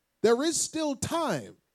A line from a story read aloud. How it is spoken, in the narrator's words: they shouted out to the Jews